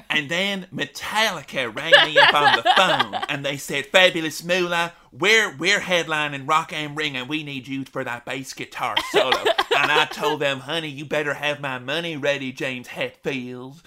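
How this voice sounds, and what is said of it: Imitates another person's voice. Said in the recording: “you don't deserve me to do an impression of you, Moolah”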